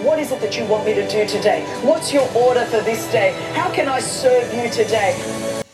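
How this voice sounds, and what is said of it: Australian accent. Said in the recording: “that Australian accent, sort of a giveaway”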